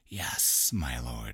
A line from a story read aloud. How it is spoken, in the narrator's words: hissed